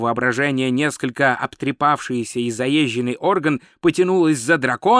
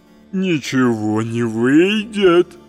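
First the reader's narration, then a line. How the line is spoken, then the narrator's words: Booming, knell-like laughter. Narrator (Russian): расхохотался голос, похожий на глухой набат погребального колокола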